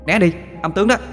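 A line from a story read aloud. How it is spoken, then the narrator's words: Crying out. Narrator (Vietnamese): kêu lên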